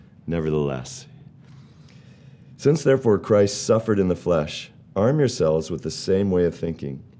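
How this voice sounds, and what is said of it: Deeper, rougher voice than usual. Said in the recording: “my voice is a little different today. Either I'm preparing for my next career in radio, or I have the lingering effects of a cold.”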